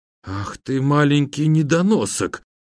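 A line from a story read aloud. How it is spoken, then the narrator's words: Shocked, strained utterance. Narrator (Russian): потрясенно выдавил из себя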